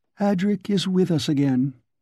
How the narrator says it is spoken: she said in her curious, lazy voice

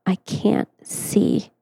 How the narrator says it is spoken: gasping

